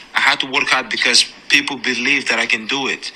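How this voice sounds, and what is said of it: Foreign-accented English. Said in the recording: “I love his accent, too.”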